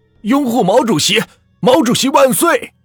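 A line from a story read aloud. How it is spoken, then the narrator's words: Crowd chanting. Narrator (Chinese): 这人这么一喊，顿时全场也是跟着喊了起来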